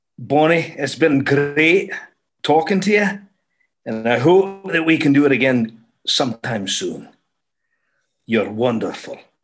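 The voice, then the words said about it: Put-on Scottish accent. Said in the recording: “say something nice to me as we end in the Scottish accent because I love it so much ... But he's Scottish”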